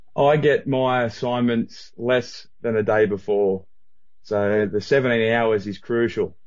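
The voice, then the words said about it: Australian accent. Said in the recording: “your accent ... the time traveler from Australia ... for an Aussie, pretty normal”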